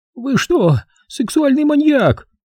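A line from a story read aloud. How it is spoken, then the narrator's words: Screaming. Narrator (Russian): завопила она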